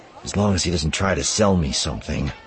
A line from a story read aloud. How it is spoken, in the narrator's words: Wedge grumbled